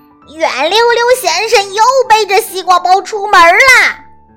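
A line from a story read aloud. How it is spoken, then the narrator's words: Loud shout. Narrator (Chinese): 乌鸦大婶儿又在森林里大声喊了起来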